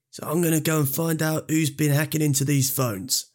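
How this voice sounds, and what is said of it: Imitates another person's voice. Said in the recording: “Can you do an impression of him ... He's a little bit Ross Kempish, isn't he? ... But happier.”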